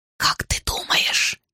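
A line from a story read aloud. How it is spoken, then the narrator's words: Loud whisper. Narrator (Russian): Она перешла на громкий шепот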